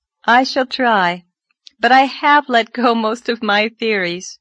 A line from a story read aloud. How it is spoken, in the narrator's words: said Anne, laughing a little